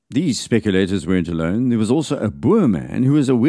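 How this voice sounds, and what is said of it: Usual voice. Nothing is said of it.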